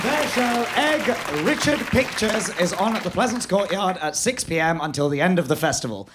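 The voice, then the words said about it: Strained, worn-out voice. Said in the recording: “my voice is something of a state at the moment”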